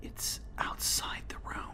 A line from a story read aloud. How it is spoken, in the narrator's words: she whispered, her voice one of utter panic, before breaking into a quiet sob